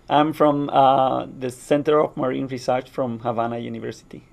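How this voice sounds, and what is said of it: Accent with rolled R's. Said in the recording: “Isn't that a beautiful accent? ... I love the way the R's roll.”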